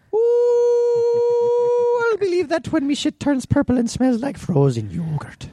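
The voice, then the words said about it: Put-on Irish accent. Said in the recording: “Can you please do an Irish accent?”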